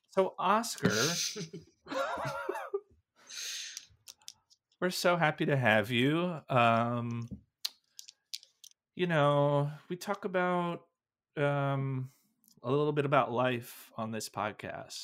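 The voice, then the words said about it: Creepy, ominous dramatic tone. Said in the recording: “You sound like a serial killer, the way you're being... The tone shifted dramatically. Dramatically shifted.”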